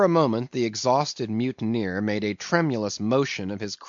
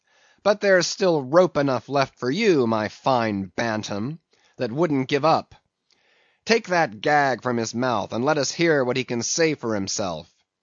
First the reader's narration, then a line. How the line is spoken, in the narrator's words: he cried at last